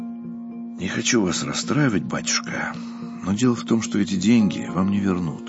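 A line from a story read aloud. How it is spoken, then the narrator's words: Sighing. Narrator (Russian): вздохнул Устинов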